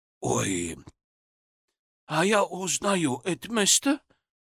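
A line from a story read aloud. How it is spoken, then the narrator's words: Hoarse. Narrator (Russian): хрипло сказал Джин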